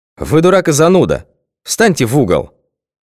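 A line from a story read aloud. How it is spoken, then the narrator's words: Angry shout. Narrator (Russian): Гневно прикрикнула Алла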